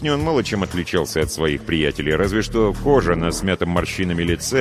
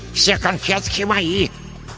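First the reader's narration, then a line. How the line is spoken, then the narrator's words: Breathless lisp. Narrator (Russian): С одышкой прошепелявил третий карлик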